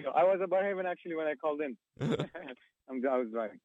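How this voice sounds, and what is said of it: Non-native English accent. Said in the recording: “you can tell from my accent, I'm not a Canadian-born”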